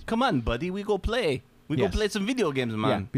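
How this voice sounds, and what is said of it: Put-on Eastern European Slavic accent. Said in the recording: “That's my Eastern, that's my Slavic accent.”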